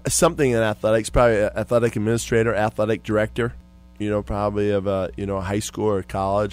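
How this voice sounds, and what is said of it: Minnesota accent. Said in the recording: “The accent that you have, I kind of laugh about it, because I got a lot of family from Minnesota, North Dakota ... the movie Fargo.”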